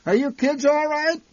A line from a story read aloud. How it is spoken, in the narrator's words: My mother occasionally shouted back through the din in our direction